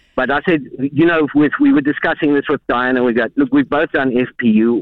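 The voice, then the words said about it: South African accent. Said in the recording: “Can I ask where your accents are from? Because I want one. ... It's South Africa. ... Just lovely.”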